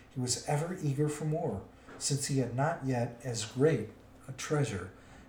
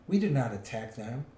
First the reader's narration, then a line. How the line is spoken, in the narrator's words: answered Thorin